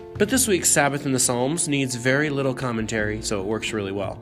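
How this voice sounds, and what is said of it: Hoarse, weak, mostly lost voice. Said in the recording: “I'm on the back end of a cold, and as you can probably tell, my voice is mostly gone”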